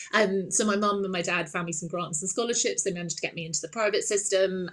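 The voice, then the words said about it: Posh English accent. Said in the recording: “which is where the accent comes from. Everyone always thinks I'm really posh ... I just sound like I am from Downton Abbey.”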